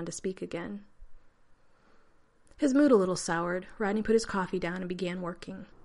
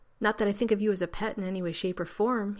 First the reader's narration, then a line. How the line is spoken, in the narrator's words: he said quickly to John